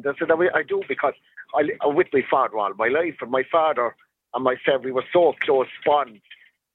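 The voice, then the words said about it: Neutral Cork accent, Tipperary tinge. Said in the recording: “yours is a kind of neutral Cork accent... It would be neutral because I kind of have a bit of a break in accent... I kind of got a bit of the Cork accent and the Tipperary accent as well”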